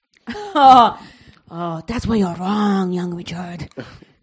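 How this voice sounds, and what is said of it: Exaggerated put-on East Asian accent. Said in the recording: “incredibly bad Oriental accents ... my racist accent is so good ... That's terrible”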